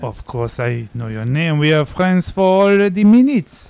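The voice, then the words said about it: Put-on foreign accent. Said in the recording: “your accent, your gorgeous accent”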